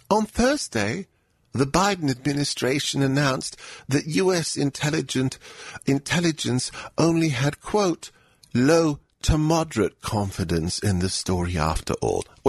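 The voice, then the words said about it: Mocking beta male voice. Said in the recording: “do a beta male voice? ... Is it possible for me to do a beta male voice? ... Does that sound like Daily Beast? ... It sounds a little bit like a CNN host on Sundays.”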